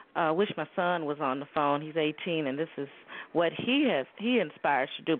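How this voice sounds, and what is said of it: Chicago accent. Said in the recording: “I love your accent ... I'm from Chicago.”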